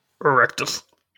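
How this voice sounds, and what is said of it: Imitates a video game character voice. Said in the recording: “a very good impression of a character from Age of Empires”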